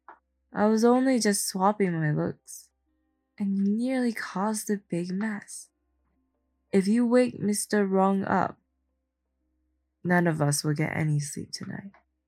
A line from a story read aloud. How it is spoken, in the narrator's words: Big Bear seemed to sense his doubt and said with a sigh